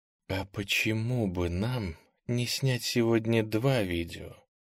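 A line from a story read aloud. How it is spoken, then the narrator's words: Low seductive female voice. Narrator (Russian): сказала она низким соблазнительным голосом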